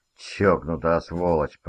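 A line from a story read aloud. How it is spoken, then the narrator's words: Muttered. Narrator (Russian): пробормотал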